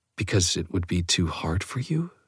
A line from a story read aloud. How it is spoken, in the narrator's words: she whispered